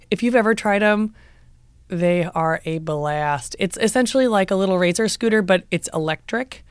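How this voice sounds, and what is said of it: Croaky, hoarse voice. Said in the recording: “the way that my voice sounds ... I come off a little bit croaky ... yelling”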